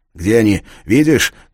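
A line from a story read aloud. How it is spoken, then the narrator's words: Shouting. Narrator (Russian): крикнул он Кларе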